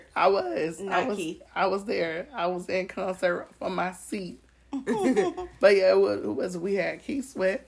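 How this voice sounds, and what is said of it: Hoarse, nearly lost voice. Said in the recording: “her voice is gone”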